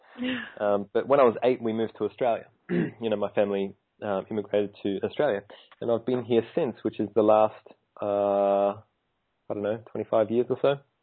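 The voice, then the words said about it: Australian accent. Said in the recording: “I sound very Australian.”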